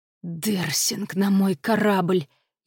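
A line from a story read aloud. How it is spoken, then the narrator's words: Imp's furious whisper. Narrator (Russian): яростно зашептал бес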